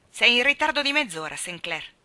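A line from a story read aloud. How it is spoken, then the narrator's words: Icy tone. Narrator (Italian): gli ricordò Anna con tono glaciale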